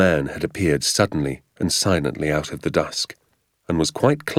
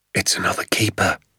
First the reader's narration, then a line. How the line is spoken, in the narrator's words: he whispered